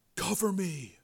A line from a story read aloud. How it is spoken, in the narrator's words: Joe whispered